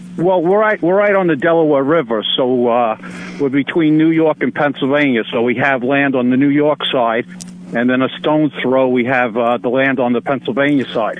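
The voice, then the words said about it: Noticeable regional accent. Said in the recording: “Did you catch that accent there? ... We can tell where he's from.”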